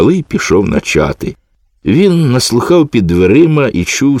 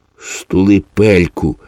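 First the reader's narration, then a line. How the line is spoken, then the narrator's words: Hissing. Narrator (Ukrainian): зашипів хтось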